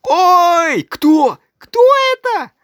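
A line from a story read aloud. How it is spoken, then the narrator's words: Everyone shouting. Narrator (Russian): Все ... закричали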